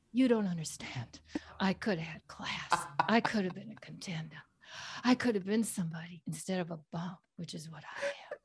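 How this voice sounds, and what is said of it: Breathy imitation of another person's voice. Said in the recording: “your best Heidi Klum impression ... The breathy was so good. ... I don't know how to do a German accent”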